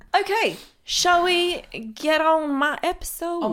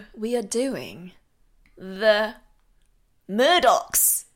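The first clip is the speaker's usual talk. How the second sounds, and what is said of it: Put-on Australian accent. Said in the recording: “That was an Australian accent ... It was incredible. ... My Aussie accent is excellent.”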